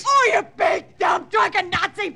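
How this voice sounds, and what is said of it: Yelling angrily. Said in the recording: “Stop yelling”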